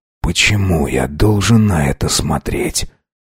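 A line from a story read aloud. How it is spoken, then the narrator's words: Barely audible. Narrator (Russian): Едва слышно произнес Нуци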